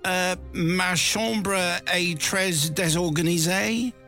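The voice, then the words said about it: French spoken in British accent. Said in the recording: “put on a British accent”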